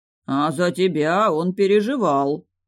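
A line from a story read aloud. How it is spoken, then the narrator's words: Thoughtful drawl. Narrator (Russian): задумчиво протянул людоед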